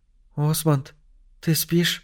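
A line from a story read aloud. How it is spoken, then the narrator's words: Whispered. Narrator (Russian): прошептала Адела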